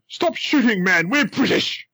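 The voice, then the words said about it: Put-on posh British officer accent. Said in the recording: “The best British accent I could put on. ... Like an affronted English officer would, you know, sort of the top British.”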